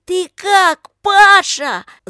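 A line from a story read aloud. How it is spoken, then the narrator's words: Shouting through cupped hands. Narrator (Russian): закричала, сложив руки рупором, Лика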